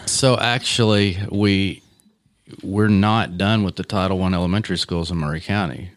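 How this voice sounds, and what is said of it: Deep radio voice. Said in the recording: “He's got that deep radio voice.”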